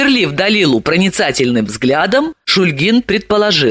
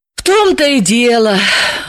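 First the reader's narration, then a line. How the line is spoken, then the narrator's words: Sighing. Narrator (Russian): вздохнула Далила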